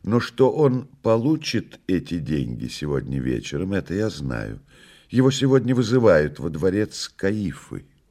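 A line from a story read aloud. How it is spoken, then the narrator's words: Calm reply. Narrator (Russian): спокойно ответил гость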